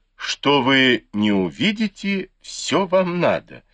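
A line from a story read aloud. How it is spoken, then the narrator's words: Laughing. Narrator (Russian): засмеялась Фэнзе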